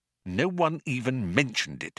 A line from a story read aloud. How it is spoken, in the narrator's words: muttered Arthur irritably